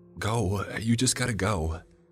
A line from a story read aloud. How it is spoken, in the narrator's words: Pia erupted urgently, her voice echoing throughout the house